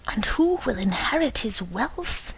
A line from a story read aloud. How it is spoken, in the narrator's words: he added in a whisper